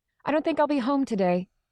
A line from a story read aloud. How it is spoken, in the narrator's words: say quickly